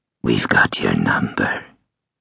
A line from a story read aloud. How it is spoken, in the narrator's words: it hissed